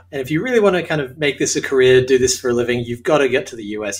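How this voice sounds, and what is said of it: Australian accent. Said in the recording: “As you can tell from my accent, I'm Australian.”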